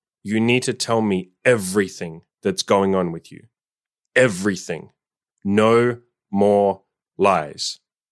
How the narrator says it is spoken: lovingly but extremely firmly said

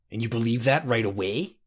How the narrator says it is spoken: Urus sneered

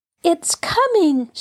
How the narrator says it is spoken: she cried

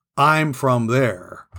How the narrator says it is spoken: said Adam dryly to Keith and Ginger

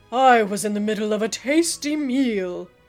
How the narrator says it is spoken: an eagle growled

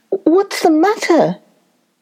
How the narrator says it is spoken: he called out, half thinking that a snake had appeared after all

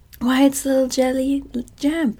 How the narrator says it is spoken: exclaimed the Scarecrow

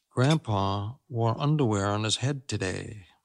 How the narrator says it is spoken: Molly's mother whispered to her husband

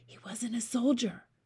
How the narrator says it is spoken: Sophie whispered

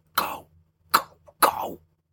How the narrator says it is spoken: mouth whispering

